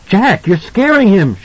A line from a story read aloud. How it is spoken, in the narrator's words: she said, and her voice was high, accusatory